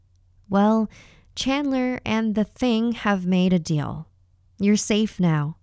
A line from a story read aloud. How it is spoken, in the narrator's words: Mom said